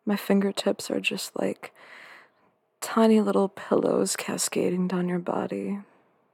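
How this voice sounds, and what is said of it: Soft, sultry, sweet voice. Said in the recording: “my voice is soft and sultry and sweet”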